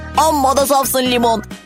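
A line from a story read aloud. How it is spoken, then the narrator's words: Shouted. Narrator (Turkish): diye bağırdı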